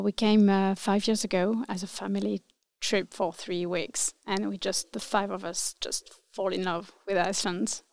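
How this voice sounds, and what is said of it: French accent. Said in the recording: “So I'm French. ... with a French accent.”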